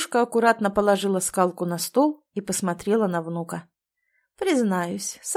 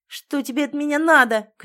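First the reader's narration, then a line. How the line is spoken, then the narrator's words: Shout. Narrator (Russian): крикнул Миша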